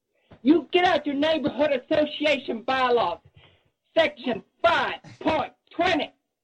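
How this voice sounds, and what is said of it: Angry Southern-style accent, dropped r's. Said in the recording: “That Elba, that little accent right there. Bylaws, pot. Well, yeah, instead of part, pot, 20. That's angry Steel Magnolias.”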